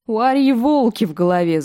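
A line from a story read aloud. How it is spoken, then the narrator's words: Laughing. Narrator (Russian): засмеялся Ломи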